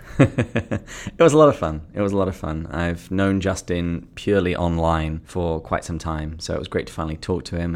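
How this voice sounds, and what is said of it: British accent. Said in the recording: “your British accent”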